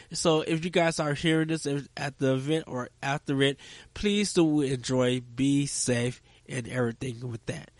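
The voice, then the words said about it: Dry-sounding voice. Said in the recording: “my voice is sounding a little bit dry”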